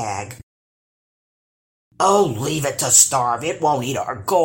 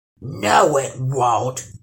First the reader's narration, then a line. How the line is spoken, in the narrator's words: growled the troll